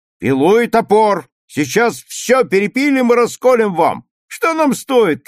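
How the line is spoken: Shouting. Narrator (Russian): кричал Юра

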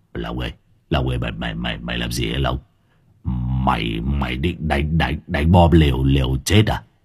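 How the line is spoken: Terrified stammering. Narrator (Vietnamese): Hải nghẹo khiếp vía lắp bắp

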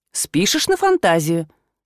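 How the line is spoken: Calm retort. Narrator (Russian): спокойно парировал невидимка

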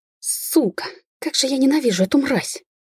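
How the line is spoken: Sobbing through gritted teeth. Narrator (Russian): процедила женщина, всхлипывая всем телом

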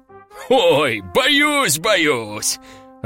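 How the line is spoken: Demon's loud laughter. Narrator (Russian): расхохотался демон

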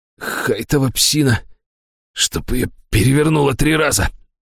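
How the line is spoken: Hoarse. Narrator (Russian): хрипло произнес Министрель

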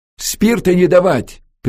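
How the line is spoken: Sharp shout. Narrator (Russian): прикрикнул Антон

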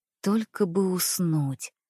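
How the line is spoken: Barely audible. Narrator (Russian): произнесла я чуть слышно

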